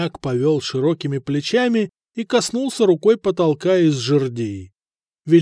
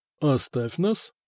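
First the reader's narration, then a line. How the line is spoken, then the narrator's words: Quiet. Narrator (Russian): негромко сказал князь старости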